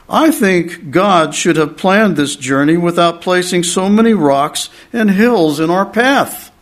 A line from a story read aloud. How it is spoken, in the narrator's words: grumbling, and he says